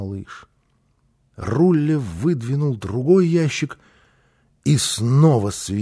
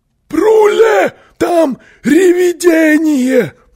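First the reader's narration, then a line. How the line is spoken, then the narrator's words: Frightened yelling. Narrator (Russian): завопил он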